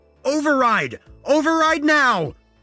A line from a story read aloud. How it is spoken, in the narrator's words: I screamed